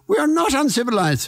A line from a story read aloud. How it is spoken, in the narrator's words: a Japanese woman screamed back